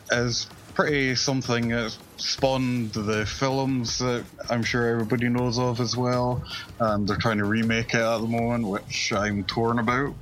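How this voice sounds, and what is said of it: Scottish accent. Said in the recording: “Just blame it on the Scottish accent ... I love the Scottish accent.”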